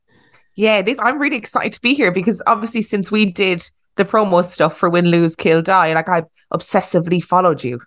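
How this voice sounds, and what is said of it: Irish accent. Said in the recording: “her gorgeous Irish accent”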